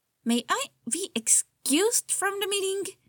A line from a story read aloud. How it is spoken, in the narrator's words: Chuya asks through gritted teeth